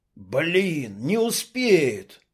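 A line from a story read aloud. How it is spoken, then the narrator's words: Exclaiming. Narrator (Russian): воскликнул Клоп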